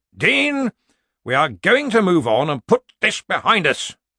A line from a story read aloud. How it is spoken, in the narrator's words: Ridcully snapped